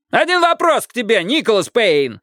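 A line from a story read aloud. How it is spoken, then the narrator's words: Yelling. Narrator (Russian): заорал Джеймс Рид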